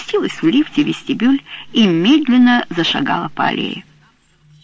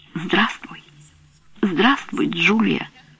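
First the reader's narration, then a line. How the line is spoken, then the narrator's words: Whisper. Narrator (Russian): прошептала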